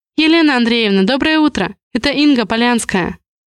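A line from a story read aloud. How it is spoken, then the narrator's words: Fast. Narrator (Russian): Быстро говорю я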